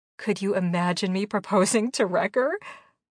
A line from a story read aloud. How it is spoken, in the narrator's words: I laughed loudly